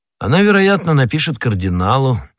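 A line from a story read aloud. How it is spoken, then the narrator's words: Casual tone. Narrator (Russian): небрежным тоном ответил Атос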